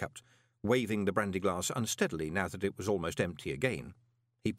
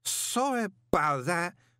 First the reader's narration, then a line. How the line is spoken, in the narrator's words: he slurred